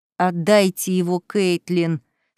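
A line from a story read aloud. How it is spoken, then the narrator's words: Through gritted teeth. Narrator (Russian): сквозь зубы произнесла Дугальда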